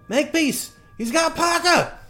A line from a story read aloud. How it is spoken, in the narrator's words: Sarah scream